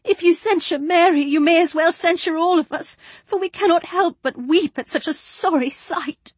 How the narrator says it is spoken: sobbed Jane

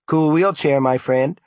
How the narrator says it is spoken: a young woman said cheerfully

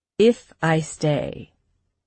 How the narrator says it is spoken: Samson said, his words slow and his voice even

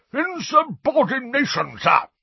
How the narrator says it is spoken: roared a corpulent, red-nosed wizard

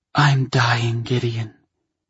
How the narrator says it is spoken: she breathed

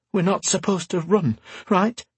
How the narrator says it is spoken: Garin said, his voice quivering like a bowstring

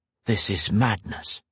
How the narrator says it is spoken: Grey muttered

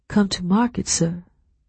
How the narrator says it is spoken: I whispered

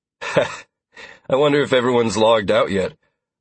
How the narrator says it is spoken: I asked with a chuckle

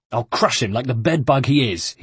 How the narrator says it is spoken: he snarled

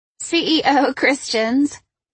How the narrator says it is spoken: Brooke laughed

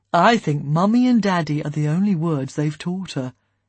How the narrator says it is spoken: Ian said dryly

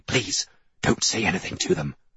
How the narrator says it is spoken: I hiss

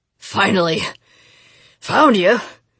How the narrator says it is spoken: he panted

